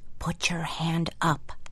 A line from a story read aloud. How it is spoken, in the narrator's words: whispered